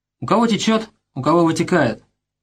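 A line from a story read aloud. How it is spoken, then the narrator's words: Sad ominous remark. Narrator (Russian): грустно заметил собеседник, но и эти вроде бы незначащие слова были полны зловещего смысла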